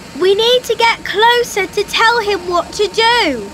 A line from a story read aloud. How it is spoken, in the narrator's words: Phoebe shouted